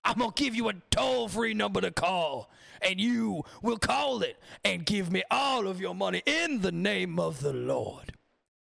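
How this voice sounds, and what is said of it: Over-the-top preacher voice impression. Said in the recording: “do my voice impressions like that... the over-the-top shit”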